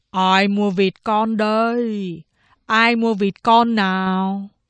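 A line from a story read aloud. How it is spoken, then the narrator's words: Melodious hawker's call. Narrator (Vietnamese): giao bằng một giọng du dương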